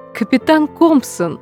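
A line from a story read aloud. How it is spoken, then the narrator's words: Smiling exclamation. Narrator (Russian): воскликнула смерть, улыбаясь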